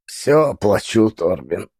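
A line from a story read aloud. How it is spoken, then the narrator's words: Wheezy voice. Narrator (Russian): сказал я сипящим голосом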